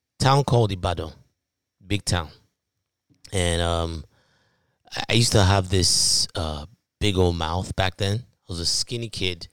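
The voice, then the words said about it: Nigerian accent. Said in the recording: “if you can't tell from my accent, I'm from Nigeria”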